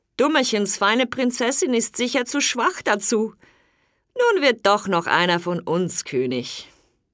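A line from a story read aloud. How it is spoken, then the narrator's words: Older brothers laughing, muttering. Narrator (German): Die älteren Brüder lachten und sagten zu sich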